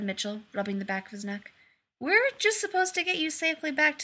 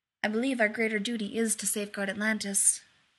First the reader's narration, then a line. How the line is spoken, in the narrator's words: Taylor said gravely